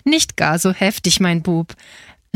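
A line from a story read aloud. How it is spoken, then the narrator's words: Laughing. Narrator (German): lachte Frau Marianna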